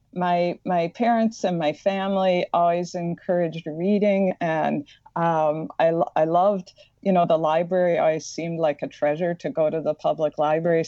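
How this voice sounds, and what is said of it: Slight Midwestern American accent. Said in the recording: “I have a slight Midwestern accent that comes out”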